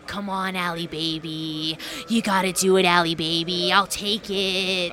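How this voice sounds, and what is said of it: Imitates another person's voice. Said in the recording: “I love the Manser impersonation. I know that's a Manser right there.”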